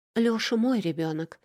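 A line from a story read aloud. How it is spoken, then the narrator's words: Timid babbling. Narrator (Russian): пролепетала я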